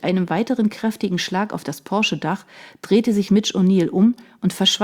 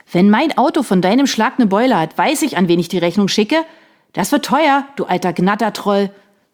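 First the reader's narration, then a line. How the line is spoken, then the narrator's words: Angry shouting. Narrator (German): schrie Sean, jetzt jedoch sichtlich verärgert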